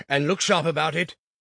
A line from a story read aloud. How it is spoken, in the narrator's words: said sternly